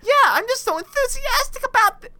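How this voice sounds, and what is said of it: Imitates a character's voice. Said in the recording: “my Connie impression is off today”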